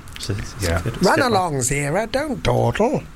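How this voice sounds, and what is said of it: Imitates another person's voice. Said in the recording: “That's my Roddy McDowell impression. Really committed to that.”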